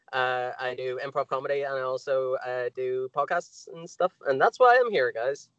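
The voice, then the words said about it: Belfast Northern Irish accent. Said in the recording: “from Belfast. Hence the accent.”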